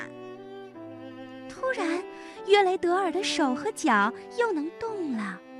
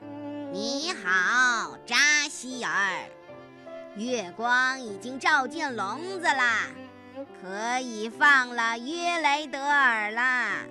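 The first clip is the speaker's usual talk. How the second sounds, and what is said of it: Low, deep witch voice. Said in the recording (Chinese): “女巫...用低沉的声音说道”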